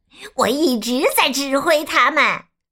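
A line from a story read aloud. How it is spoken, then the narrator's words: Shouting again. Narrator (Chinese): 基奥又叫了起来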